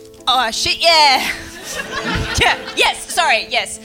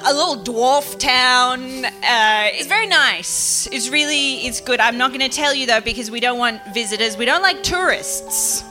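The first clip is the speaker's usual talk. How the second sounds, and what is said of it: Put-on accent for a dwarf character. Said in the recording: “What is that accent? Where are you from?”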